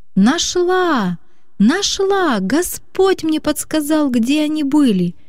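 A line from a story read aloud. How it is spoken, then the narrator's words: Girl's jubilant shout. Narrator (Russian): ликуя кричала девочка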